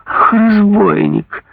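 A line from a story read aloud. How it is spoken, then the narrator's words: King's exclamation. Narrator (Russian): воскликнул король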